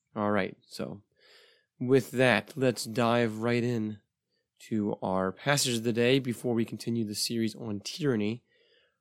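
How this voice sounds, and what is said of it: Voice not fully recovered. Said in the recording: “my voice is slowly coming back. It's a little better than it was a couple episodes ago. I was sick over a month ago, and my voice has not yet recovered, but things are looking better.”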